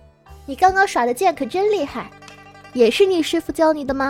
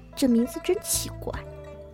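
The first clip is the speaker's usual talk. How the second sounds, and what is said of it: Quiet muttering. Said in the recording (Chinese): “小声嘟囔一句”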